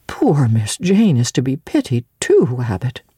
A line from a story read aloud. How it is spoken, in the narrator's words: Bessie, when she heard this narrative, sighed and said